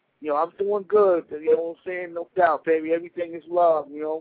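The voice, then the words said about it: Brooklyn accent. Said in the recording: “Ooh, look at that accent. ... Brooklyn in the house.”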